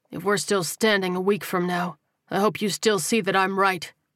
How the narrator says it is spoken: Tyrell replied coldly

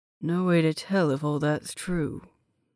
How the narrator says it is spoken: he muttered, almost under his breath

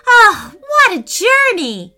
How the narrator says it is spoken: Preston squealed with delight

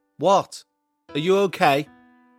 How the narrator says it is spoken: I yelled back

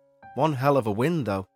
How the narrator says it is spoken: muttered

